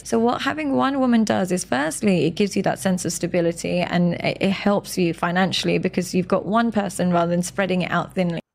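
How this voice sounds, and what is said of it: Speaks with a noticeable accent. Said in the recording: “She got that accent, so she sounds smart.”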